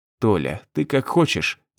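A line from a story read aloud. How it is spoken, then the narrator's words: Quiet. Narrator (Russian): тихо сказал я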